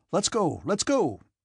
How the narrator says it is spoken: cried Anatole

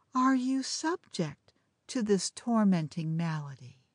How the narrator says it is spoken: said she, in a soft, languishing tone

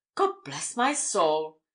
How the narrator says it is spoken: exclaimed the chairman

